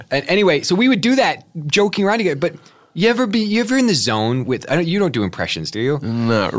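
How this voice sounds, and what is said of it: Usual voice. Nothing is said of it.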